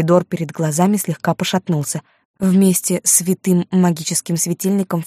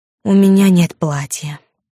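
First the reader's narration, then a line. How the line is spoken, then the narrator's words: Disappointed exhale. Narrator (Russian): выдохнул разочарованно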